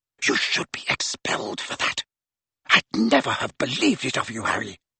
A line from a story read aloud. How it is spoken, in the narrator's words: Bending low so that only Harry could hear her, she hissed